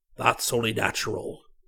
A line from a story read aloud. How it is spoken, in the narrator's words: growled Uncle Naboth